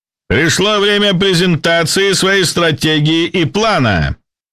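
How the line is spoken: Shouted. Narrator (Russian): прокричал ведущий

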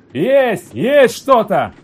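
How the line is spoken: Incredulous shout, burly young man. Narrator (Russian): Словно не веря в удачу, закричал один детина с красными заветренными щеками

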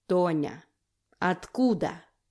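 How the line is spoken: Clipped through teeth. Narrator (Russian): чеканю сквозь зубы

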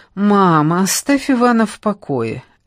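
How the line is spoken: Lazy defense. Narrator (Russian): лениво вступилась за мужа Марина

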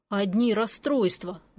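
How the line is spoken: Grumbling. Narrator (Russian): буркнул он

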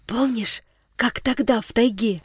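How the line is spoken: Reminding whisper. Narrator (Russian): напомнил шепотом

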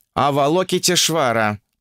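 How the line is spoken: Grumbling. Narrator (Russian): пробурчал Укун

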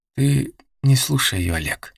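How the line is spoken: Very quiet, near whisper. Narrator (Russian): произнесла тихо, очень тихо, почти шепотом Лис

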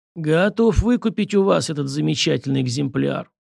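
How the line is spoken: Hoarse voice from doorway. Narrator (Russian): послышался от дверей хриплый голос

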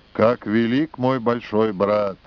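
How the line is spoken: Quiet, tearful. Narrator (Russian): Текле смахнула слезу, вслух она тихо обронила

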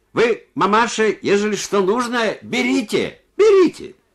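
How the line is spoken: Deaf man shouting. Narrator (Russian): глухой, крикнул ей

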